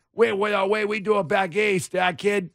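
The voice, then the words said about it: Exaggerated mixed East Coast accent. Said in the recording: “all you East Coasters ... That's a conglomeration of all of the accents.”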